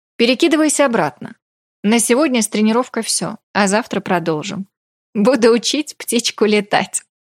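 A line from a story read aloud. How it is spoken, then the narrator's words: Laughing. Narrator (Russian): рассмеялся Ракша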